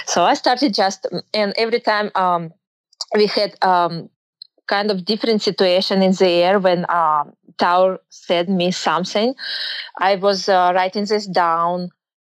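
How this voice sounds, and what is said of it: Speaks English with a noticeable accent. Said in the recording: “because of my accent”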